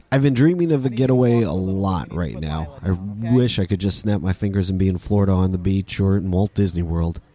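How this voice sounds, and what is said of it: Congested, stuffy-sounding voice. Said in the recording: “I got a cold last week and this week my allergies are back. I'm sorry, you can just hear it in my voice.”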